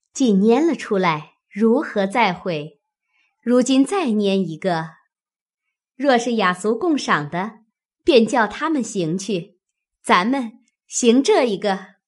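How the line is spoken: Laughing. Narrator (Chinese): 探春笑道

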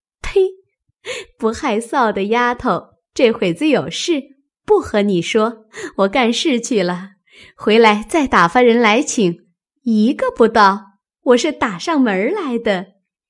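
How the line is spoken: Laughing. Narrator (Chinese): 平儿笑道

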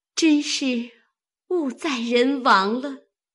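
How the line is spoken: Sighing. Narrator (Chinese): 秋纹见这条红裤是晴雯针线，因叹道

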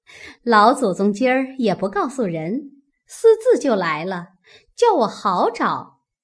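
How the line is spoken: Cheerful smiling. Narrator (Chinese): 凤姐笑嘻嘻的，口内说道

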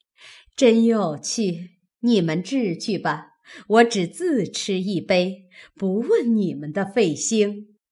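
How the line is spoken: Laughing. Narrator (Chinese): 李纨笑道

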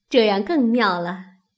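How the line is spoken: Group laughing. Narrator (Chinese): 众人都笑起来了，说

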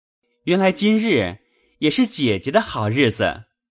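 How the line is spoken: Happy, laughing. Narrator (Chinese): 宝玉喜得 笑道

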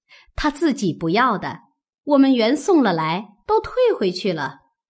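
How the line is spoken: Laughing reply. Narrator (Chinese): 王夫人、凤姐等都笑回说

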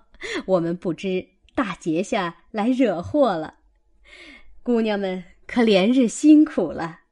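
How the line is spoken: Women, hurried, laughing. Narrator (Chinese): 那媳妇们忙笑道

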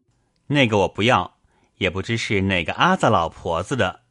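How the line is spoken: Laughing. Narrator (Chinese): 宝玉笑道

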